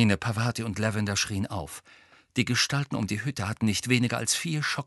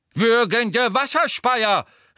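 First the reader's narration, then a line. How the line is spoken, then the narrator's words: Calling out. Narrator (German): rief Professor Tofty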